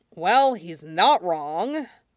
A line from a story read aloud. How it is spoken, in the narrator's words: Jiang Cheng sighed, frowning